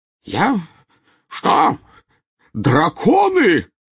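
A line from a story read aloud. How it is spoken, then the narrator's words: Spluttering yell. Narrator (Russian): завопил, брызгая слюной, премьер-министр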